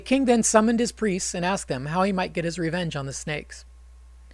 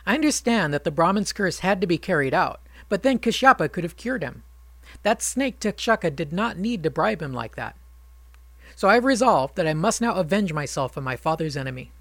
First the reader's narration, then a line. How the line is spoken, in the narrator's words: In his tears exclaimed